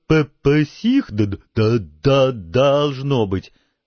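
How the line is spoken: Breathless, strained. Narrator (Russian): задыхаясь, выдавил из себя Пейн

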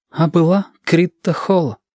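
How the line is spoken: Sigh. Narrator (Russian): вздохнул Женька

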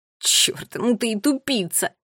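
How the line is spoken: Quiet laugh. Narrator (Russian): Финн тихо рассмеялся

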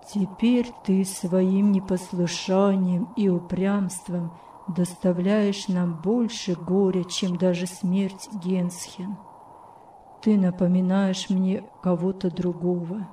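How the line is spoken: Sad tone. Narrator (Russian): печальным тоном сказал

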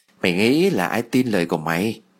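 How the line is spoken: Soft, eerie smile. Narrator (Vietnamese): khẽ mỉm cười, nụ cười đầy ma mị

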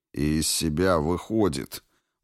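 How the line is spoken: Gloomy. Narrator (Russian): мрачно добавил Квинт

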